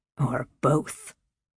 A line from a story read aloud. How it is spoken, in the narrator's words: Manderston muttered loud enough to be heard throughout the room